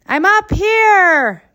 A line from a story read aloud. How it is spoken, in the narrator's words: Duane shouted back